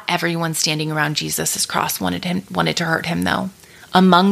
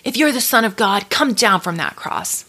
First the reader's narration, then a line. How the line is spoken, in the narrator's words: Some of the people shouted up at him